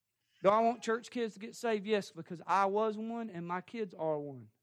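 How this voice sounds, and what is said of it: Southern American accent. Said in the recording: “I'm talking Southern now”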